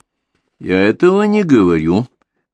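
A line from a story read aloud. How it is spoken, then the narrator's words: Muffled hollow reply. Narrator (Russian): глухим голосом ответил Шефер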